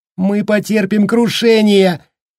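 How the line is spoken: Shrill hysterical woman. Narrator (Russian): визгливо вещала истеричная женщина

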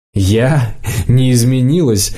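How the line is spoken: Nearly bursting into laughter. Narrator (Russian): Лидка чуть не расхохоталась

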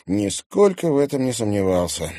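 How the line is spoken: Gloomy remark. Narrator (Russian): мрачно заметил Тимофей

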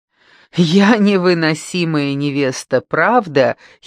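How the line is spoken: Giggling. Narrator (Russian): хихикнула Аделарета

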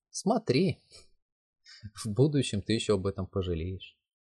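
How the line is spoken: Sighing. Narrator (Russian): вздохнул Йо-Сю

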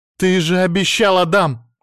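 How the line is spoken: Shouting into phone. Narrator (Russian): кричала в трубку

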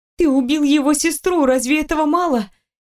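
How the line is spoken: Desperate shouting. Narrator (Russian): кричала, пытаясь остановить его хотя бы разговором

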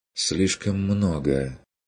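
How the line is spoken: Sigh, lowered voice. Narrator (Russian): вздохнула она, понизила голос

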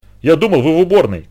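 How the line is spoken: Shouted. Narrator (Russian): крикнул он

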